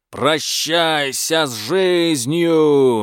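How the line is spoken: Roar. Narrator (Russian): Гузотряс проревел

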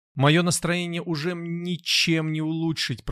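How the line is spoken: Moaning. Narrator (Russian): простонал Датан

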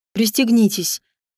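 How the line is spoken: Cold curt remark. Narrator (Russian): холодно обронил он

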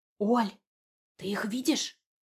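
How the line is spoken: Whisper. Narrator (Russian): шепнула Рита

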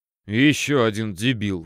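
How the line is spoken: Snorting. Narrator (Russian): фыркнул контролер

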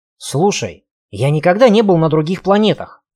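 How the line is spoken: Snapping retort. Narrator (Russian): огрызнулся Кельт

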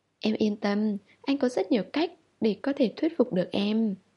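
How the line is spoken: Smiling. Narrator (Vietnamese): Hàn Duệ mỉm cười

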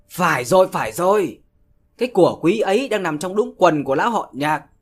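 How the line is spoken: Shrieking man. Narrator (Vietnamese): một gã chết tiệt nào đó đã rú lên

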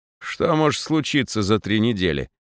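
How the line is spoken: Scoffing snort. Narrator (Russian): хмыкнул Обрютин

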